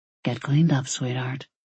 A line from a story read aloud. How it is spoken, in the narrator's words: he murmured